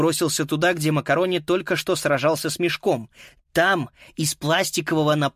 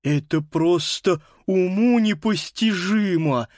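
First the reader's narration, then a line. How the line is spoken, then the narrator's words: Admiring lisp. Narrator (Russian): с признанием в голосе прошепелявил Паскаль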